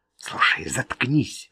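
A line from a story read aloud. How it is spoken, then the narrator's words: Hissed. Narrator (Russian): прошипел Джо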